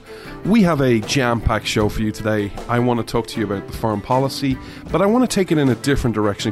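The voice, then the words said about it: Irish accent. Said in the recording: “Irishman ... you come for the accent”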